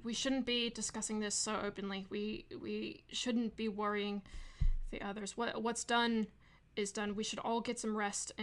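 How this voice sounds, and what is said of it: Slipping into Australian accent. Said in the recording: “I keep slipping into an Australian accent.”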